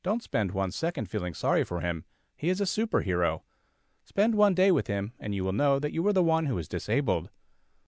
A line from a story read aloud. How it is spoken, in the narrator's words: I laugh and say